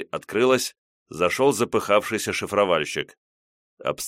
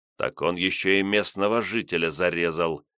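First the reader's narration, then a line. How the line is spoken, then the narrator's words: Grave, shocked voice. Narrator (Russian): за могильным голосом произнес шокированный резидент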